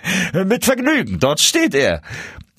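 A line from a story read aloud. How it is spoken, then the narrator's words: Calling out, laughing. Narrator (German): rief der Barbier lachend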